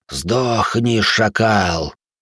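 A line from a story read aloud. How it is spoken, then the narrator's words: Hissed. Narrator (Russian): прошипел он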